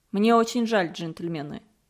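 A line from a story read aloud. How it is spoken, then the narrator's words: Calm. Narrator (Russian): сказал он спокойно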